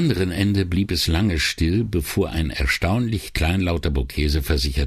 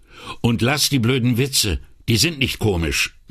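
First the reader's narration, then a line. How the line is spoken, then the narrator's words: Curt, suddenly angry. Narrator (German): fügte er schroff hinzu, selbst erstaunt über seinen plötzlichen Zorn auf Bocchese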